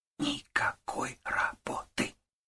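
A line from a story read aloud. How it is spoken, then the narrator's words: Clipped whisper. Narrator (Russian): отчеканила Маша шепотом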